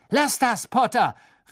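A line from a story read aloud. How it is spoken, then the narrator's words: Irritated shout. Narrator (German): rief Malfoy gereizt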